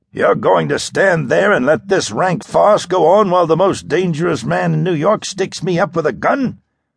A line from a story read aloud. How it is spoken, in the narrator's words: roared Burks